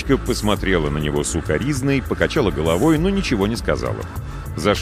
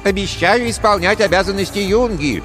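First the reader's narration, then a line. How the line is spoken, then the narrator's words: Mocking thin voice. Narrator (Russian): тонким голоском передразнил он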